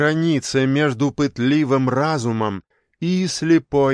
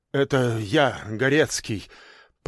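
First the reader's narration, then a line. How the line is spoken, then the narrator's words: Shaky, breaking mutter. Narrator (Russian): пробормотал он неверным, срывающимся голосом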